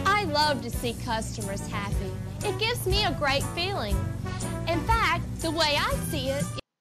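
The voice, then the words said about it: Strange mixed American regional accent. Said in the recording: “What is this accent? It's like somewhere between Georgia, Missouri... And I don't know, Minnesota, she has a very strange accent.”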